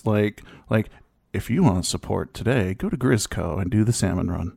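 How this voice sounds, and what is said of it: Corporate announcer voice. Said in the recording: “It's like my announcer voice. ... My corporate show game is on.”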